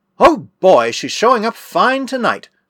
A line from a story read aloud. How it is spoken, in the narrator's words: suddenly exclaimed Mark